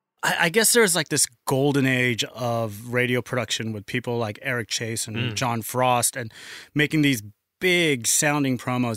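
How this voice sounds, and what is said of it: American accent. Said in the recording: “if the accent didn't give it away, spent most of his career in the US”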